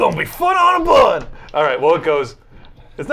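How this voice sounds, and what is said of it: Usual voice. Nothing is said of it.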